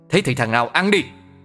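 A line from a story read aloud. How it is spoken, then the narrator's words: Shouted. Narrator (Vietnamese): Hắn quát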